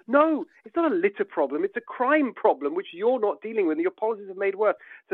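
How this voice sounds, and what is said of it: Angry, enraged voice. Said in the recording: “So they just enrage you, as you can tell from my voice. It's just so infuriating.”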